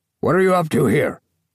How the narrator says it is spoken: he barked

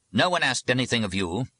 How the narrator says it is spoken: the abbot said curtly

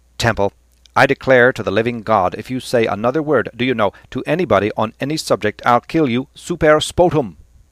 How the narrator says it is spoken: Cranley said sternly

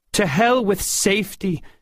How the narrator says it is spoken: she cried

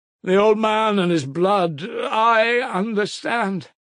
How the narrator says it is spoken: cried Mitya frantically

